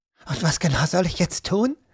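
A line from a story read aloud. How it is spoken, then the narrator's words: Quiet but agitated. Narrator (German): hörte er Erika leise, aber aufgeregt sagen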